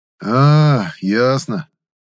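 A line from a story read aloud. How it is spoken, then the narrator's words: Young man's unsure drawl. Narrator (Russian): неуверенно протянул парень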